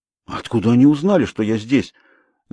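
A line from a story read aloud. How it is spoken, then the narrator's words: Suddenly hoarse voice. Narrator (Russian): говорю я внезапно осипшим голосом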